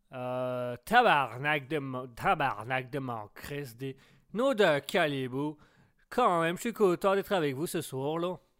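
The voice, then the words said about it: Put-on Québécois French accent. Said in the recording (French): “Essaye euh, l'accent euh, québécois.”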